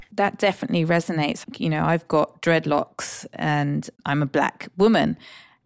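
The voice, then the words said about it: British accent. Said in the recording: “they hear the British accent”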